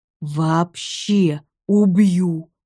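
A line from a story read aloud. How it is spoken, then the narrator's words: Hoarse wheeze. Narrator (Russian): прохрипел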